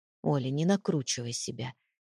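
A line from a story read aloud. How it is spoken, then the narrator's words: Quiet but firm. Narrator (Russian): тихо, но твердо произнес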